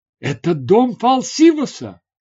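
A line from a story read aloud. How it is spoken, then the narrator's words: Exclaiming. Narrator (Russian): воскликнула она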